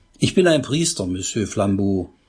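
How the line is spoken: Plain. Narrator (German): sagte Pater Braun

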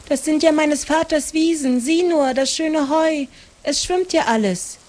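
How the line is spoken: Called. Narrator (German): rief Maren

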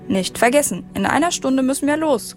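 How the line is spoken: Calling over shoulder. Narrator (German): rief er noch über die Schulter

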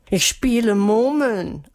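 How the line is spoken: Pitiful voice. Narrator (German): antwortete Melissa mit kläglicher Stimme

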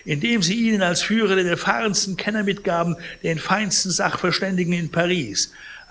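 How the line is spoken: Indignant exclamation. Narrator (German): rief Pons empört

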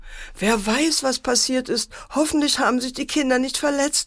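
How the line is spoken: Mother wailing. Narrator (German): jammerte die Mutter

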